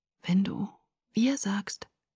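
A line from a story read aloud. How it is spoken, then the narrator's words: Whisper. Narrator (German): flüsterte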